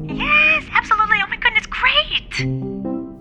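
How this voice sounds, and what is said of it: Voice much higher than usual. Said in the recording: “does your voice sound like that? ... Like way higher than usual.”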